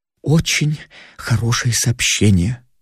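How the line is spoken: Forced, strained. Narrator (Russian): выдавил из себя Флодерп

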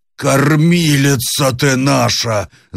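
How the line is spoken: Sobbing wail. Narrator (Russian): завопил, наконец, схлипывая Буркин

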